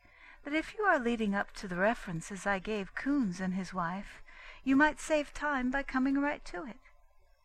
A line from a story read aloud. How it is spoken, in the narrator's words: she said sweetly